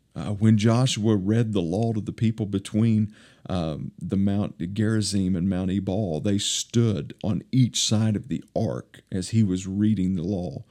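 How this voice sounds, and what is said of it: Eastern Kentucky accent. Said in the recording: “my Eastern Kentucky dialect”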